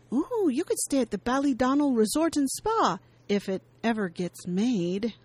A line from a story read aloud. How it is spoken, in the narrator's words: Lindsay excitedly pipes in